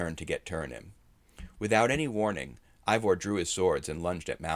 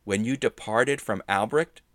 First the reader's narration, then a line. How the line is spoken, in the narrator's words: Attilius asked